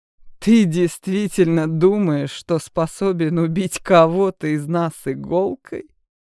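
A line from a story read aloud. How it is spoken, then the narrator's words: Arrogant laughing vampire. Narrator (Russian): высокомерно рассмеялся один из вампиров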